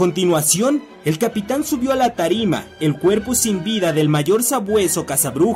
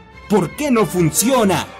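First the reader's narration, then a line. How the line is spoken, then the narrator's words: King shouting. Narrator (Spanish): le gritó el rey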